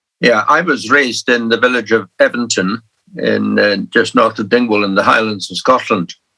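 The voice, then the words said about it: Pleasant regional accent, lovely voice. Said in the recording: “certainly giving you a beautiful accent. Um, you've got a lovely voice.”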